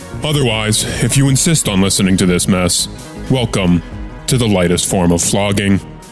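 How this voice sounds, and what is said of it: Deep announcer voice. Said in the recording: “deep voice”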